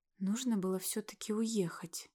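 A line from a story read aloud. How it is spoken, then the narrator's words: Quiet voice. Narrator (Russian): тихо сказала Лера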